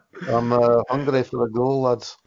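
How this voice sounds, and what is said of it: Poor put-on Scottish accent. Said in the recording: “your closest reference for a Scottish accent now is Mike Myers, because you're a Canadian, so you're not to be expected to do a good Scottish accent ... That was terrible.”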